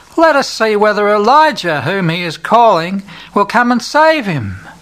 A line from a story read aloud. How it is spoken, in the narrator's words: Other people shout